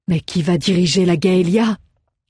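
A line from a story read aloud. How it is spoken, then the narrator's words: Sudden disbelieving exclamation. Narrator (French): s'exclama soudain Belly, refusant encore d'y croire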